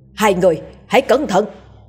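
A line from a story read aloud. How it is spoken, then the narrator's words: Loud shout. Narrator (Vietnamese): Già làng hét lớn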